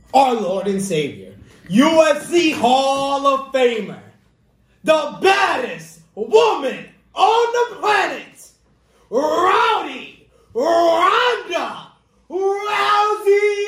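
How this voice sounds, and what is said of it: Justin Roberts ring announcer impression. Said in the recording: “your best Justin Roberts impression”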